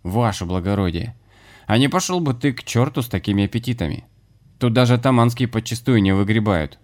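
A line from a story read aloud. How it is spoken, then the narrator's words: Indignant bark. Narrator (Russian): возмутился Дима и рявкнул на помещика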